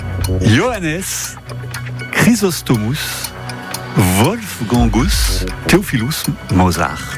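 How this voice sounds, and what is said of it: Name read in exaggerated foreign accent. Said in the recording (French): “J'ai essayé de vous le faire le maximum avec l'accent.”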